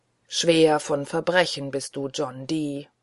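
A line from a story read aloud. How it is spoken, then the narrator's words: Groaning. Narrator (German): stöhnt der Rote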